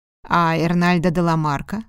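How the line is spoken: Plain question. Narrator (Russian): спросил Диего

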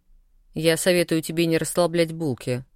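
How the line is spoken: Hmph. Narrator (Russian): хмыкнул Коша

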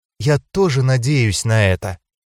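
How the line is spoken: Quiet, sad, after sigh. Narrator (Russian): вздохнула настолько грустно, что у меня сжалось сердце, и тихо произнесла

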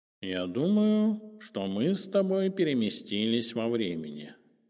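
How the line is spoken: Cat's purr. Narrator (Russian): мурлыкнул кот

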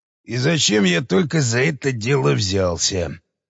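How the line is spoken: Mutter. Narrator (Russian): бормотал он

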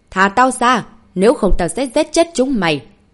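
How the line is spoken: Defiant yell. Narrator (Vietnamese): Hắn ta không thèm để ý tới lời của Trần Hùng mà gào lên

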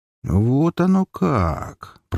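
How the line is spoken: Drawn-out. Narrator (Russian): протянул я

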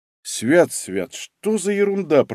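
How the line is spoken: Grumbling. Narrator (Russian): проворчал Мамыкин

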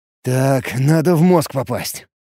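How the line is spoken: Grumbling. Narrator (Russian): пробурчал я

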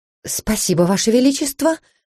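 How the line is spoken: Strained, forced-out words. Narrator (Russian): наконец смогла я выдавить из себя

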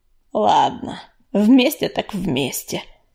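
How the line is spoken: Displeased grumble. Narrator (Russian): недовольно пробурчал Чернозвезд

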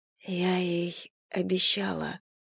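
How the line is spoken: Quiet crying. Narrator (Russian): тихо заплакала Вера

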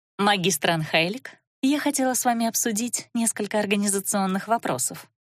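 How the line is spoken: Soft. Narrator (Russian): мягко произнесла она

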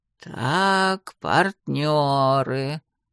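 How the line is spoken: Muttering. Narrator (Russian): бормотала она

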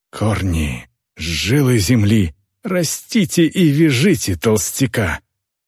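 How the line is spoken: Breathy exclamation. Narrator (Russian): Выдохнула Вёрн

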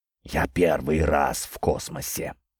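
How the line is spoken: Spellbound whisper. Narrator (Russian): прошептал завороженный Петр

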